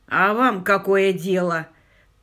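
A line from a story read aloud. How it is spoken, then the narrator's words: Farmer's furious growl. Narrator (Russian): прорычал фермер с такой яростью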